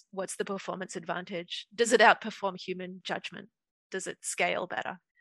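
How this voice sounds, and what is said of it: Woman with a non-native accent. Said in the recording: “I have a funny accent”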